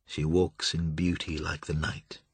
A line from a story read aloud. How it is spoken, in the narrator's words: said, very quietly